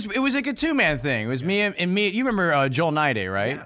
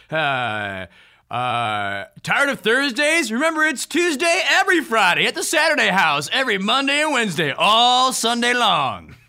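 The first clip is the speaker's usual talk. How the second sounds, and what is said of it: Over-the-top shock jock radio DJ voice. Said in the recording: “Can you do your shock jock DJ voice? ... here's my shock jock DJ voice”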